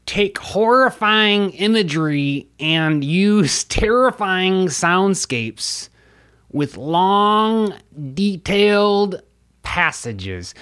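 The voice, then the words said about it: Slightly comical David Lynch impression. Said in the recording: “I'm working on the David Lynch impression ... I think I'm getting a little hoarse. My Lynch impression's usually a little less comical”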